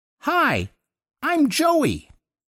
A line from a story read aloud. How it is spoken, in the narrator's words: the kid piped up out of nowhere in this reedy Looney Tunes sort of voice